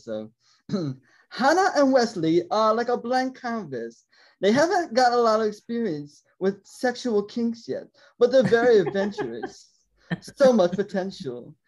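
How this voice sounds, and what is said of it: Put-on British accent. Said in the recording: “I do my British voice. She's British ... Sorry, I do my British voice.”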